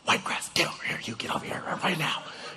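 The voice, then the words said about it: Whispered. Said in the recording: “I'm whispering it because it's 1 in the morning”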